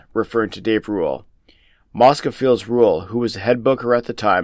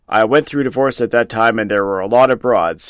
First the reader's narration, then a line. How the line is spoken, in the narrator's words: he chuckles